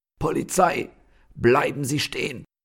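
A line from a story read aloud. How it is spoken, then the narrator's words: Man calling out. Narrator (German): Dann sprang auch noch ein Mann von seinem Stuhl und rief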